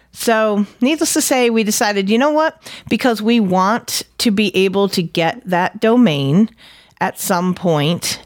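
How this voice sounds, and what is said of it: New England accent. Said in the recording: “my godforsaken New England accent”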